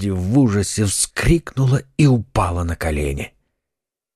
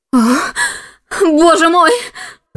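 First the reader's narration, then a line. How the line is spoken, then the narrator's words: Woman screaming. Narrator (Russian): закричала она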